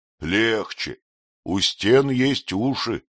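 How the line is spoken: Fatherly old man's tone. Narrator (Russian): отеческим тоном проговорил старый шахтер

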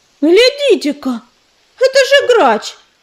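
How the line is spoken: Sudden exclamation. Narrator (Russian): вдруг воскликнула Белогрудка

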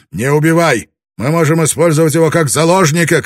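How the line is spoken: Shouting. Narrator (Russian): крикнул он

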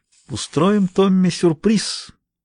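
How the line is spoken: Muttered. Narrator (Russian): пробормотала она

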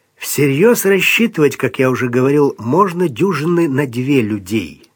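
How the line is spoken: Plain. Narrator (Russian): сказал Бангал

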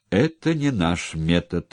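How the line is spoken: Sarcastic smirk. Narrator (Russian): язвительно усмехнулся Санька

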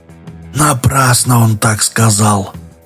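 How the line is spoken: Whisper. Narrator (Russian): прошептал Дауга

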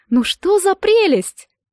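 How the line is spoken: Exclaimed. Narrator (Russian): мама воскликнула

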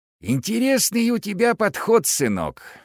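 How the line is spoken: Hoarse voice. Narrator (Russian): хриплым голосом сказал он мне

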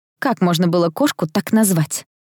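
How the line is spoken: Young woman grumbling. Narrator (Russian): проворчала девушка

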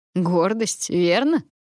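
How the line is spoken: Sour snort. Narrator (Russian): кисло хмыкнул он

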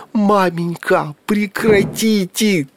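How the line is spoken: Miserable wail. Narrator (Russian): тоскливо взвыл престижный Митька

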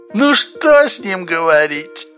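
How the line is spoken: Lazy. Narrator (Russian): Лениво добавил Спицын

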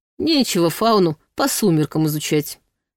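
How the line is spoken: Snort. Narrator (Russian): хмыкнул Ваня

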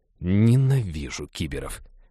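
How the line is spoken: Approving grumble. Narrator (Russian): одобрительно проворчал Хэл

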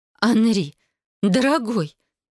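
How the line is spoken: Older woman's babble. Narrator (Russian): пролепетала свекровь

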